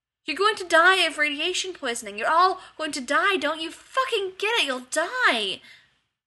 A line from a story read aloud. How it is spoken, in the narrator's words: Rodney screamed